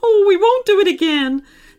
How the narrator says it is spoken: they cried

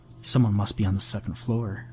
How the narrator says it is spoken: I mumbled towards Hartman

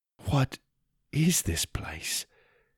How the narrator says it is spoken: I said quietly

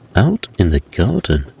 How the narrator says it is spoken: answered Santa Claus

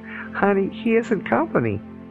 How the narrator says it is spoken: After the laughter subsided enough, I replied

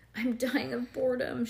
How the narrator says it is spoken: she moaned, hoping her mother would hear her

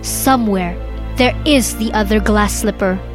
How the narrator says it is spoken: he said

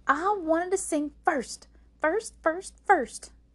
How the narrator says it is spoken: yelled Maymay

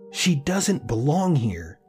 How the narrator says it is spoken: the woman yelled

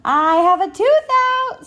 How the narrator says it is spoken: Sal shouted

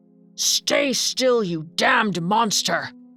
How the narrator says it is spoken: The devil growled at him, saying

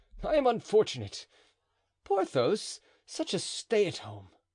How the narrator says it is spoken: cried the musketeer

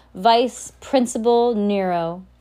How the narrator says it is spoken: the man announced in a loud voice

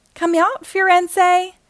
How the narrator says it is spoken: shouted Legs

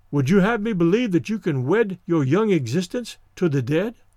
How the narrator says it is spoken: he exclaimed, with something like horror

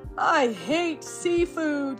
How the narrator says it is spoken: yelled Mikey

